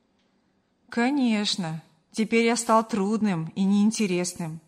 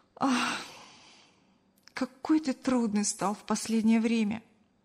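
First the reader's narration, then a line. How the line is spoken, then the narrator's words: Sighing. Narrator (Russian): вздохнула Кристина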